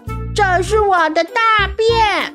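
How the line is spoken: Shouting. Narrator (Chinese): 粪金龟，大喊着

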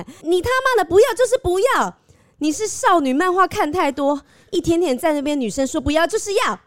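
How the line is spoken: Inner silent scream. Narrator (Chinese): 此时内心的我只想呐喊

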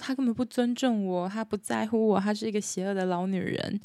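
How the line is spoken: Angry girl crying, complaining. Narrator (Chinese): 帕洛玛的姐姐非常的生气，跟爸爸妈妈哭诉说

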